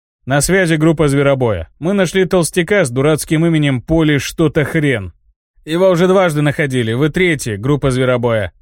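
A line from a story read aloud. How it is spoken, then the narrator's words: Chuckling voice through amulet. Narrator (Russian): хохотнул голос из амулета связи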